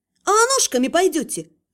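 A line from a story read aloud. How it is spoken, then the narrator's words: Snapping retort. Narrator (Russian): огрызнулась я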